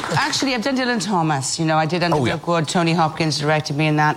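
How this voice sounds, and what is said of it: Welsh accent. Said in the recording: “acted using your own accent ... Wales!”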